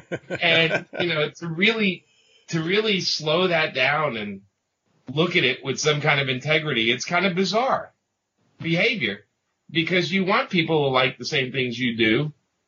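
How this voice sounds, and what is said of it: Brooklyn accent. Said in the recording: “if you can't tell by the accent, I grew up in Brooklyn.”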